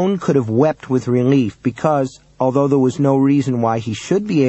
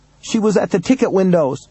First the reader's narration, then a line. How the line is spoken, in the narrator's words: Ramon cried out of the darkness that was relentlessly enveloping him